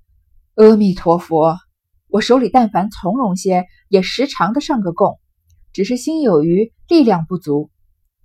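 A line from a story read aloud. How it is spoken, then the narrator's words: Sighing. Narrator (Chinese): 赵姨娘叹口气道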